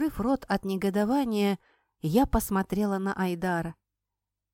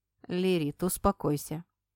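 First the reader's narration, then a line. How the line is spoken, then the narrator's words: Plain. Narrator (Russian): сказал мне Айдар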